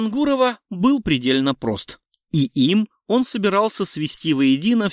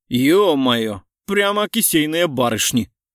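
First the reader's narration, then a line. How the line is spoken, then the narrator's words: Laughing loudly. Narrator (Russian): расхохотался Лев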